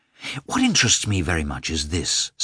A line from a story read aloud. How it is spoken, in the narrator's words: said Levin